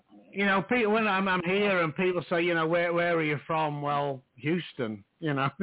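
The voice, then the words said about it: Doncaster accent. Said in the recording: “I'm stuck with a Doncaster accent”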